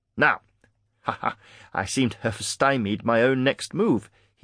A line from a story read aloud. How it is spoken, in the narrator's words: he chuckled